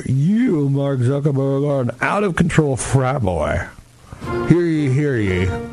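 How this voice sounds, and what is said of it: Put-on English accent, sounding Southern. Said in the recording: “that was actually my English accent, believe it or not. It sounds a little bit like my Southern accent”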